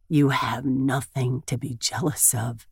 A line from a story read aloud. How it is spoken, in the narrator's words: he says in a husky voice